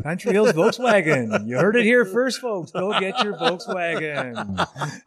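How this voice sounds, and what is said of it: Radio DJ style voice. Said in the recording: “you got that DJ voice.”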